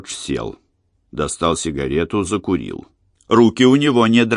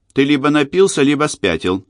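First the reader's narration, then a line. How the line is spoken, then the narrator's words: Angry. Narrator (Russian): сердито сказала Кора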